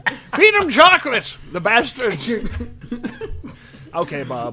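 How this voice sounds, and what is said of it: Bad Bob Barker impression. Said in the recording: “a really terrible Bob Barker impression”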